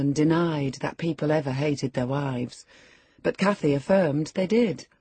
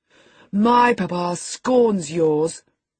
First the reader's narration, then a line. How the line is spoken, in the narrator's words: cried Linton